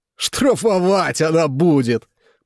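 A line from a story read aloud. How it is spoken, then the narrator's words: Booming voice. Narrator (Russian): прогремел рядом голос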